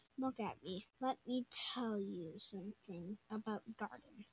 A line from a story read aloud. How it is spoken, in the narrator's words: said Grandpa Gus